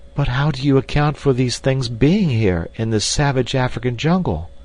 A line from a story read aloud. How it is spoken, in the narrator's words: exclaimed the girl